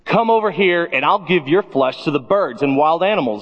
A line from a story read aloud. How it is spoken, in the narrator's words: Goliath yelled